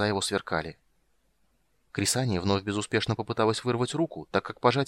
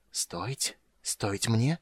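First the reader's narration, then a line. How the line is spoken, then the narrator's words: Barely audible. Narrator (Russian): еле слышно повторил Рейстлин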